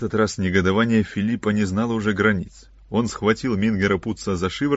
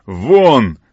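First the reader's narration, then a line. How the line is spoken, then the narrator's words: Shouted. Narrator (Russian): крикнул он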